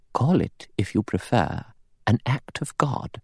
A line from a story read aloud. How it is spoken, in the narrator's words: Emily Brent said quietly